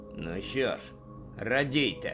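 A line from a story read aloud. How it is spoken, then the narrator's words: Grumbled. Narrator (Ukrainian): буркнув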